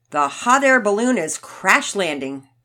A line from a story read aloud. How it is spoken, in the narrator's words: Daddy Peters yelled out